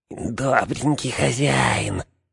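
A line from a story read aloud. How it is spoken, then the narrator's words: Whispered. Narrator (Russian): прошептал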